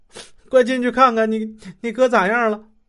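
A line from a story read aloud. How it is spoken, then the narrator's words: Crying. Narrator (Chinese): 李慧哭了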